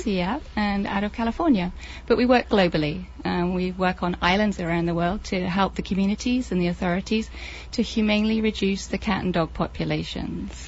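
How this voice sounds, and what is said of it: English accent. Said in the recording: “I hear your English accent there.”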